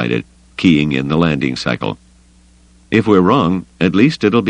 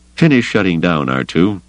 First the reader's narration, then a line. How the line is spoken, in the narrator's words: Luke said, hearing the slight quaver in his voice